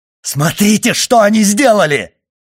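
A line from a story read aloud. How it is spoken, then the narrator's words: Shout. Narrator (Russian): крикнул Моррель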